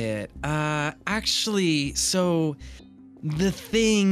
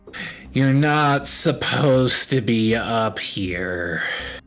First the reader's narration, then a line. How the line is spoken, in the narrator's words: give like this deeply frustrated sigh, and he says